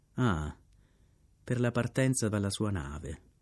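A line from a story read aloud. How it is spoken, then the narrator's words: Grumpy murmur. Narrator (Italian): Mormorai con malumore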